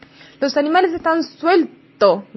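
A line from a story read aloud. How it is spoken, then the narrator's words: Shouted in chorus. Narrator (Spanish): gritaron a coro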